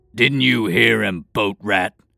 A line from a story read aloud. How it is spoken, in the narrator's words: The helmet guard snarled, now turning hostile